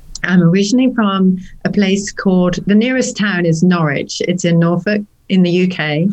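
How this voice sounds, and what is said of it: British English accent. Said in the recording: “that's why I still have my accent.”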